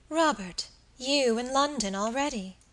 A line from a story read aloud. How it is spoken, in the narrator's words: she exclaimed